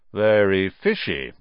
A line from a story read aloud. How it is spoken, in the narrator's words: said, finally